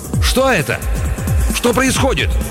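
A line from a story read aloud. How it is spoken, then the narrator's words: Shout. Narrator (Russian): он крикнул Баро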